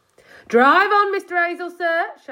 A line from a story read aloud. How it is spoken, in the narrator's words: shouted Sergeant Samways through the window in his most commanding policeman's voice